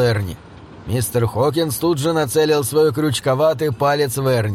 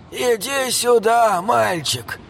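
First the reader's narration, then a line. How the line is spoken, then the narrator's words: Creaky voice. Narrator (Russian): проскрипел он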